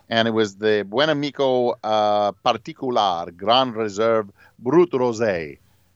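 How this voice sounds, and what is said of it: Sudden put-on foreign accent. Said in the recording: “I don't know why I suddenly developed an accent”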